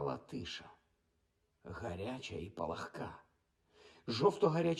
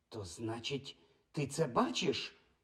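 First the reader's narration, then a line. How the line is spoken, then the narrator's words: Exclamation. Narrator (Ukrainian): вигукнула вона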